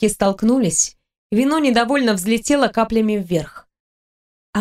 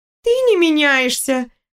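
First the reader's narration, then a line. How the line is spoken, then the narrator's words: Laughing. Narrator (Russian): рассмеялась девушка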